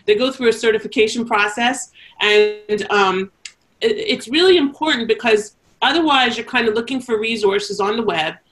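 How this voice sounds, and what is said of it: Canadian accent. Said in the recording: “my Canadian accent.”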